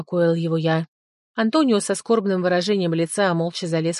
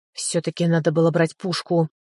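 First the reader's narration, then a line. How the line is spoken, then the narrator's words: Muttering under breath. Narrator (Russian): бормотал он себе под нос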